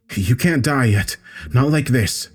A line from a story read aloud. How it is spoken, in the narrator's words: I knelt down beside him in the wet grass and gasped